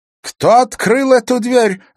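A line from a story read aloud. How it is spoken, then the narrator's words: Indignant female exclamation. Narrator (Russian): возмущенно воскликнула Евдокия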